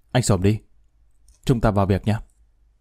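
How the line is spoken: Stern voice. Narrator (Vietnamese): Thượng tá Minh nghiêm giọng

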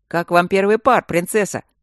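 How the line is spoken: Booming. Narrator (Russian): прогудел комендантский голос из соседней бочки

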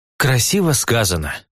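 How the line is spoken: Sighing. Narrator (Russian): вздохнул я

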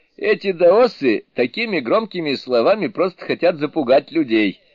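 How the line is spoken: Laughing. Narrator (Russian): рассмеявшись, сказал Суню-кун

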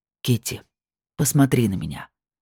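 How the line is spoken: Very tender request. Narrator (Russian): попросил так нежно, что защемило сердце

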